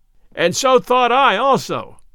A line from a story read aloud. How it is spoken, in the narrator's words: cried Robin Hood, shouting with laughter till the tears ran down his cheeks